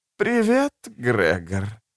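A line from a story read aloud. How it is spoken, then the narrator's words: Weak voice. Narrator (Russian): произнес Черубаэль слабым голосом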